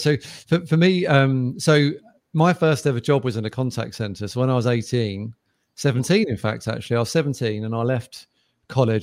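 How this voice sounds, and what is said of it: British accent. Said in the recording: “I joined UK, as you probably get by the accent”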